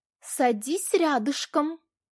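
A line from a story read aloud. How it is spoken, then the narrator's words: Breathless commanding shout. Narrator (Russian): Часто дыша выкрикнул он, и слова прозвучали приказом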